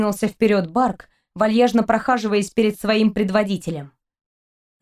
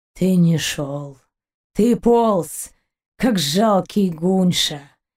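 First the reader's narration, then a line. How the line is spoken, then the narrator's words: Near moan. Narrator (Russian): Почти простонал Гайн, не желая тратить лишнее время на предателя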